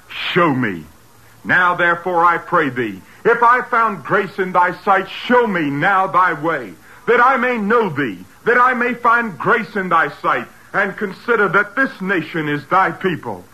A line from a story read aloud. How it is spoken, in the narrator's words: Moses cried